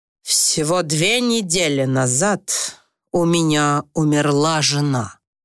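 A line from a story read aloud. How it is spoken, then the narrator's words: Very gloomy. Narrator (Russian): очень мрачно произнес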